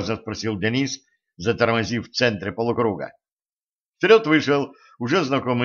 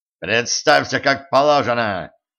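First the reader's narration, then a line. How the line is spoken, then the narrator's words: Barking sharply. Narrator (Russian): рявкнул стажер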